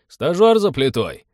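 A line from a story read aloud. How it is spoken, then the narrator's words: Snide. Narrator (Russian): ехидно сообщил Теодор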